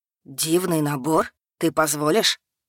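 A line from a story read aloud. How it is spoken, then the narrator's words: Rapturous breathless exclamation. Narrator (Russian): Восторженно выдохнул обретший дар речи Стефаль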